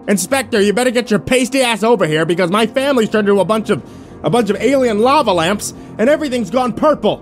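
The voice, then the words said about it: Raised, loud voice. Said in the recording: “raised my voice.”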